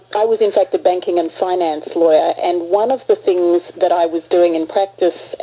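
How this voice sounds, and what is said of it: Australian accent. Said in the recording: “When I started out my academic career in Australia, your listeners will notice, I'm sure, that I have a bit of an accent going here.”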